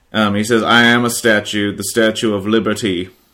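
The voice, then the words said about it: Quoted line in put-on accent. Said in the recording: “I shouldn't have said it with an accent.”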